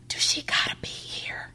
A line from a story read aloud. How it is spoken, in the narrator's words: In a whisper not covered by cracking twigs, he asks